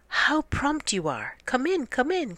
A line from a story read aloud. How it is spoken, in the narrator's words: cried Cat to Dog